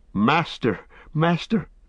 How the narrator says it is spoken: cried Sam

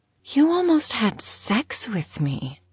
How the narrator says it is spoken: she said, inserting a slight whine to her voice

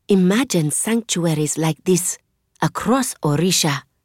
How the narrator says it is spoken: I whisper to Zane

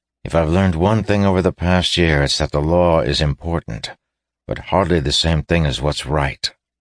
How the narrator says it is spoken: he said grimly

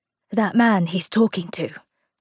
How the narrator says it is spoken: Tom whispered

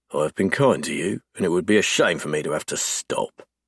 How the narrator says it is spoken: Ryder growls, voice cold and deadly

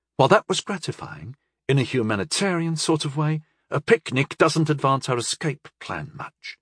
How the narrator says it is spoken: Utterpal murmured to Rondal

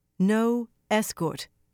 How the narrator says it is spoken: Elaine said firmly

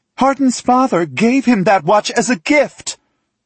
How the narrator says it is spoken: she shouts

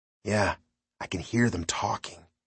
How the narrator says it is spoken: Danny replied in a whisper

